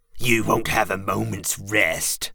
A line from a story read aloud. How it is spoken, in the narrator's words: Pows spat the words at Laird